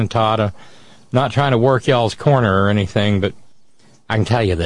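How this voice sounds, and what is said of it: Usual voice. Nothing is said of it.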